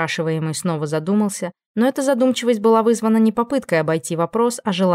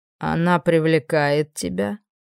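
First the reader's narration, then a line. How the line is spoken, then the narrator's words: Calm, curious question. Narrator (Russian): Квардинг спросил это совершенно спокойным голосом, в котором сквозило искреннее любопытство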